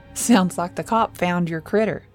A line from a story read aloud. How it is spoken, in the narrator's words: Jerry laughed